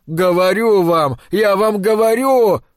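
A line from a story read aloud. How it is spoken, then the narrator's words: Shouted. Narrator (Russian): выкрикнул он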